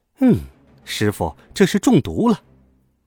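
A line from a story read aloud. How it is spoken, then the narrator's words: Sighing quietly. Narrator (Chinese): 孙悟空在暗中叹道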